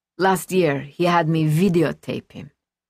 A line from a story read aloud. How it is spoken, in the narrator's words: Luisa said in her raspy voice